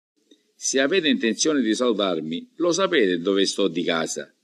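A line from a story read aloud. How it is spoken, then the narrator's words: Plain. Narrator (Italian): rispose Lola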